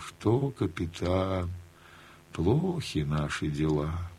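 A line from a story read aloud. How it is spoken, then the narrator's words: Sighing, cheerless. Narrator (Russian): вздохнет, скажет невесело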